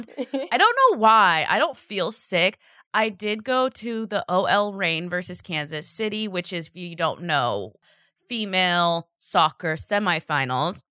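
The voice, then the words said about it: Slightly hoarse voice. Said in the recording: “I might sound a little hoarse or a little not as beautiful as my vocals usually sound”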